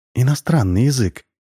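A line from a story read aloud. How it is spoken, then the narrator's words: Sighing. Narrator (Russian): вздохнула Александра Евгеньевна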